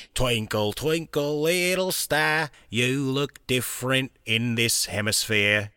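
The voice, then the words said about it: Australian accent. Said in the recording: “it works because of the Australian accent”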